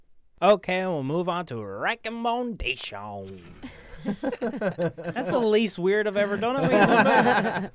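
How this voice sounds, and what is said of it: Put-on Texan accent. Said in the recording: “What accent was that? Like, what was that meant to be? ... It's ... version of a Texan.”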